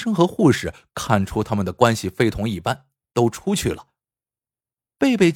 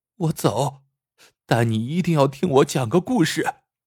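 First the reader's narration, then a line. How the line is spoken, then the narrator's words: Sobbing. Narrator (Chinese): 贝贝哭得更凶了，说道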